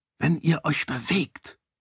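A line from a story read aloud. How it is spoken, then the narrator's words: Quiet. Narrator (German): sagte Raoden leise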